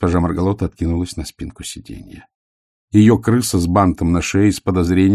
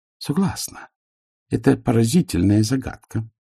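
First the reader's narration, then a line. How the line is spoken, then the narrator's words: Calm. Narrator (Russian): спокойно сказала вампирша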